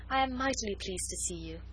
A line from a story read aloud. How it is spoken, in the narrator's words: said Marguerite, with a pretty little sigh of satisfaction